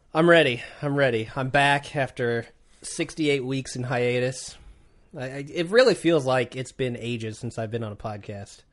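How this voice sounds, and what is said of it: Sick, congested voice. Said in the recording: “I've been sick. You can probably hear it in my voice. ... I'm trying to keep back the forces of evil in my nose.”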